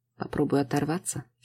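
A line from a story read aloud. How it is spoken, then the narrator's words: Calm. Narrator (Russian): спокойно произносит Макс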